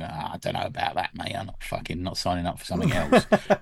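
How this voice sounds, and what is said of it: Exaggerated impression of own voice. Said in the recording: “that was an impression of myself”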